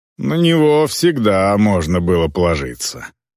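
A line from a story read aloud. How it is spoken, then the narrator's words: Grumbling. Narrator (Russian): проворчала Эльвар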